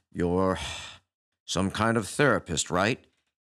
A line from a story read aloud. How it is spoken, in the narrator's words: He said with a heavy sigh